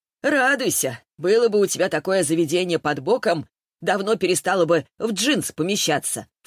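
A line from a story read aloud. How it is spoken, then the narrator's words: Snorting, dismissive. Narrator (Russian): фыркнула Лиза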